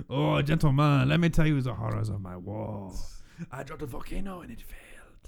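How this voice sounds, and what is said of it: Bad put-on French accent. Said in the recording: “That was a bad accent... The French accent is a notorious killing accent.”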